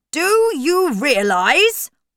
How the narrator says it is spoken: Uncle Matthew shouted

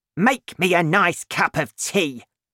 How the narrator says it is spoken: Grandma shouted at George

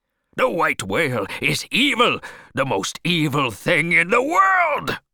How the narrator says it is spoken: cried Ahab even more wildly

